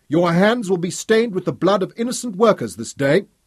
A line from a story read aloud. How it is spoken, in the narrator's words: yelled Fergus